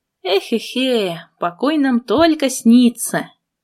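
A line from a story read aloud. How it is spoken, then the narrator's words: Sigh. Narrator (Russian): вздохнула я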